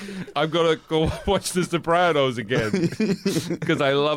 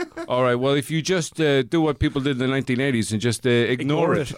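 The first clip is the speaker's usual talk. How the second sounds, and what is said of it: Put-on New Jersey accent. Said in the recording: “I dropped my accent. My New Jersey accent was perfect until I had to say good luck. I just went pure Irish.”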